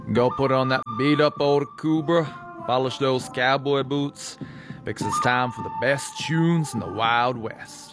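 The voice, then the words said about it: Put-on Western cowboy accent. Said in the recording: “Wowee, what an authentic accent there. ... our Western cowboy”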